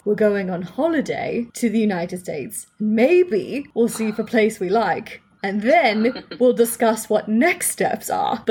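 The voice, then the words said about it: Put-on, poor English accent. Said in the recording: “the worst English accent he's ever heard”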